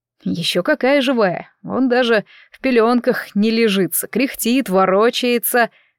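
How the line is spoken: Father laughing. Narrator (Russian): засмеялся папа

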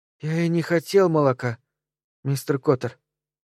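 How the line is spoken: Weak voice. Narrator (Russian): слабым голосом произнес Билли

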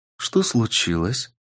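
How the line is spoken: Calm question. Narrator (Russian): спокойно спросила Ксения

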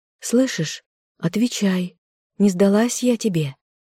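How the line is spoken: Repeated question. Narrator (Russian): она повторила вопрос

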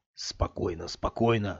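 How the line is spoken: Whisper. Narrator (Russian): слетел с губ шепотом совет рассудка

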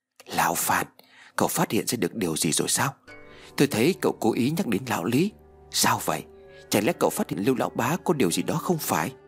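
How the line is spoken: Whisper. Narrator (Vietnamese): thì thào nói

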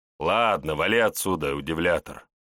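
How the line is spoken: Snorting chuckle. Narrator (Russian): хмыкнул Выгорский

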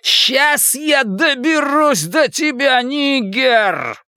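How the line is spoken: Roaring. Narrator (Russian): проревел он

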